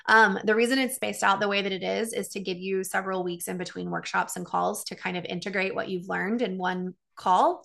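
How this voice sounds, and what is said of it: Strained, fading voice. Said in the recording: “My voice is going”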